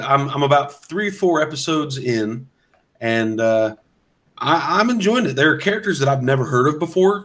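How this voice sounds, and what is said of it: Slightly sick-sounding voice. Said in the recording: “I got sick over the week. You can probably still hear it in my voice a bit ... tell a little bit of a difference in my voice”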